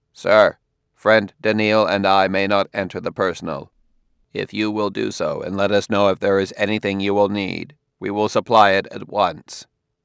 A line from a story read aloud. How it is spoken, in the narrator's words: Giscard said, his voice stiffer and a trifle less intoned than Daniil's